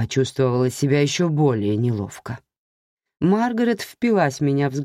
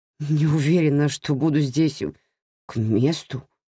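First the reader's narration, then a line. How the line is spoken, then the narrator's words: Stammering mutter. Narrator (Russian): заикаясь, пробормотала я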